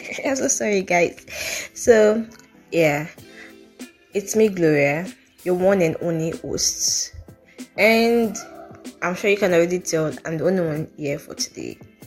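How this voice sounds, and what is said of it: Voice sounds rough or unwell. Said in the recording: “my voice isn't all that good”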